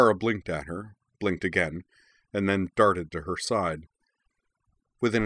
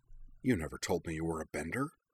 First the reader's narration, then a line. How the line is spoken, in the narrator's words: Katara muttered over her shoulder